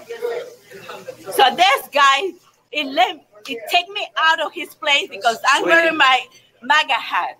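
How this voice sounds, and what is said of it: Heavily accented English. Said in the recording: “her terrible accent”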